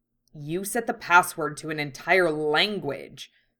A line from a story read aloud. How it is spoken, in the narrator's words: Hiei snapped, somewhat mollified by amusement at Genkai's furry predicament